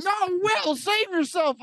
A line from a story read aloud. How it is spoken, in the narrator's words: I yelled